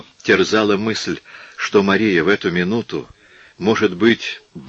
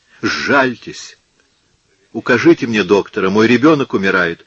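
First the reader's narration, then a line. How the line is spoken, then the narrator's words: Shouted desperately. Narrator (Russian): крикнула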